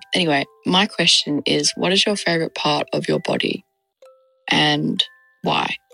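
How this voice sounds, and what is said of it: Australian accent. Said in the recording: “from Perth, Australia, if you could tell by my accent”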